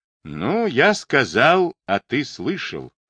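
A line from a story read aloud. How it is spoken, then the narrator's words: Calm. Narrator (Russian): произнес Демидов спокойно, зная, что Макшеев помнит свои слова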